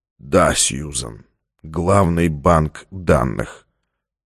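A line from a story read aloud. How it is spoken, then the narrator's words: Flat, colorless voice. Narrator (Russian): Стратмар произнес бесцветным голосом, видимо, уже все поняв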